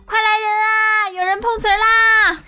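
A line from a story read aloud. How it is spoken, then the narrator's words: Shouting. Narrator (Chinese): 我俩于是喊道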